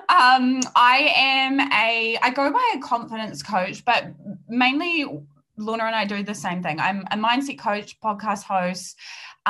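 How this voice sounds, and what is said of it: Strong New Zealand accent. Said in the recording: “I'm a New Zealander and the accent is going to be very very strong”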